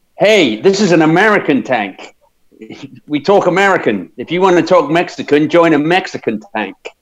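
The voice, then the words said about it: Weak imitation of an actor's American accent. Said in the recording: “That wasn't a very good Brad Pitt accent”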